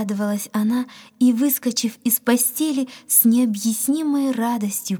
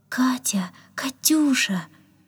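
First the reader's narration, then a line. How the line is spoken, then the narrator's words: Tender calling. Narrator (Russian): ласково звал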